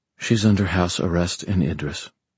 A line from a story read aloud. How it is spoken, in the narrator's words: Aline said quietly